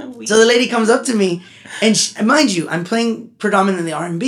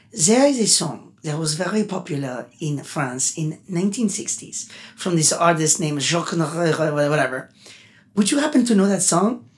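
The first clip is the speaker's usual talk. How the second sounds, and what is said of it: Imitated French-accented English. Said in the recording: “She has an accent. ... You did that very well.”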